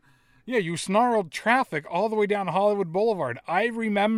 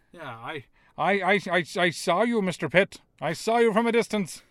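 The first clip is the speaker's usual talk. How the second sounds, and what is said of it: Weird half-committed old-time radio voice. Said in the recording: “What is that voice? ... it wasn't a British accent ... It was kind of weird. ... Half committed, like, I picture, like, GM of an old-time baseball team ... radio, it was like a weird Jimmy Stewart meets I don't know what.”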